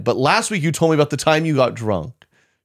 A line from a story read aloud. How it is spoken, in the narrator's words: She loudly replied